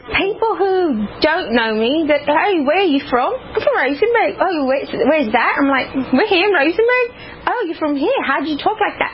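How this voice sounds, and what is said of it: British-sounding accent. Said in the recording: “woke up with a British accent after she had jaw surgery ... foreign accent syndrome”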